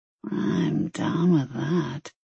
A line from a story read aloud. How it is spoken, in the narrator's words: she murmured huskily